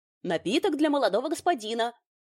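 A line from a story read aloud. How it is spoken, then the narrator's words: Rapid pushy patter. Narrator (Russian): Снова протараторил настырный официант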